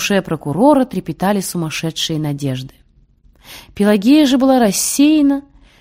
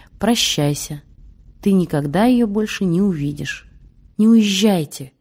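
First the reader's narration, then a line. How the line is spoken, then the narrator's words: Sad unknown voice. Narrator (Russian): чей-то голос, печально сказавший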